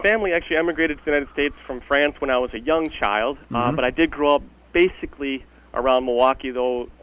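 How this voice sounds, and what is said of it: Slight Wisconsin accent. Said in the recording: “You do have a little bit of the Wisconsin accent still going”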